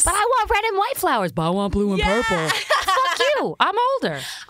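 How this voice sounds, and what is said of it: Put-on Southern accent. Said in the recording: “I love watching an Asian person do a Southern accent right now... Yeah, it's amazing.”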